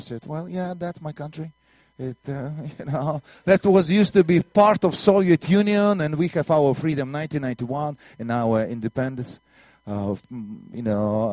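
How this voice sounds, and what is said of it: Strong Russian accent. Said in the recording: “my strange Russian accent”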